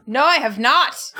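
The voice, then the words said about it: Shouting character voice. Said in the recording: “that's the best character voice you've ever done... you can keep shouting at me”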